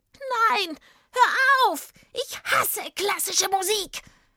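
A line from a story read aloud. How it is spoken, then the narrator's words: Witch screaming. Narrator (German): Als die Hexe diese Töne hörte, schrie sie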